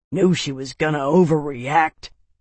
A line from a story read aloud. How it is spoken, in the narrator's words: Jeb grumbled